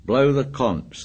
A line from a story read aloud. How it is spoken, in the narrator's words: said Piggy